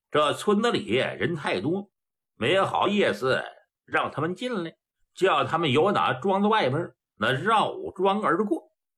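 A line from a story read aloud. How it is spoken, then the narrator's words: Faint cold smile. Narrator (Chinese): 孔兴微寒一笑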